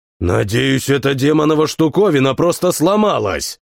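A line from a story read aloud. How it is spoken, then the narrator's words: Growled. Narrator (Russian): прорычал Фрэнк Халл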